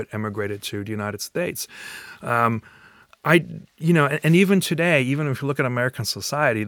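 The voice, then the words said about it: Non-American foreign accent. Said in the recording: “I was not from the US, and I think my accent still gives it away”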